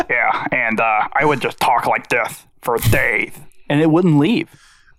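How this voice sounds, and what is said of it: Deathly paladin character voice. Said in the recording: “his voice was kind of like death ... It's still my favorite ... voice.”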